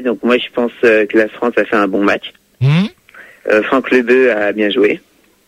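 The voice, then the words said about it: Speaks with a noticeable accent. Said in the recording (French): “Ton accent...”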